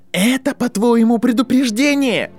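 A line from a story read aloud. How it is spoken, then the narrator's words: Shouting. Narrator (Russian): Драко уже кричал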